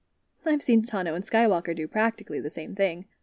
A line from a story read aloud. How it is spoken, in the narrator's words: Wooly said dryly